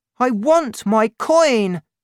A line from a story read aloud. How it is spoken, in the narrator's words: cried the child